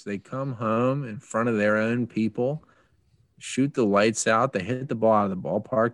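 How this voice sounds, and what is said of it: Strong Philadelphia accent. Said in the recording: “You slipped into a little extra Philly accent there. This was really nice.”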